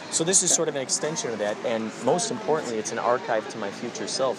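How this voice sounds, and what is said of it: Strong Chicago accent. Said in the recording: “Where are you from? Wisconsin? ... you got a strong accent. ... Chicago, that makes sense. That checks out.”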